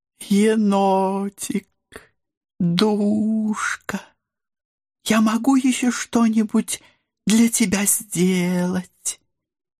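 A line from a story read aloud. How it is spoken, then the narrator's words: Sugary sing-song, beautiful woman. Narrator (Russian): Елейным голоском пропела красавица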